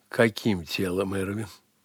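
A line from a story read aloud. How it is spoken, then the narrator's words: Playful laughing woman. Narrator (Russian): Игриво рассмеялась женщина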